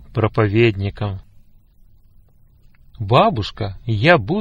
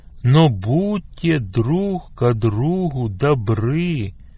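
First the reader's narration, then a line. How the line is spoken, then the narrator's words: Slow. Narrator (Russian): медленно начал Сергей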